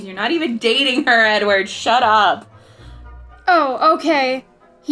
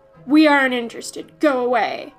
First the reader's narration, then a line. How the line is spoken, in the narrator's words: growled